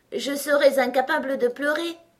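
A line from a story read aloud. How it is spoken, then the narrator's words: Laughing through tears. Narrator (French): dit Alice, en riant à travers ses larmes tellement tout cela lui semblait ridicule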